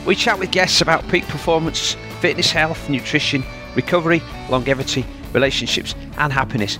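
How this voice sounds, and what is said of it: Yorkshire English accent. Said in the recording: “you'll always hear a Yorkshire accent”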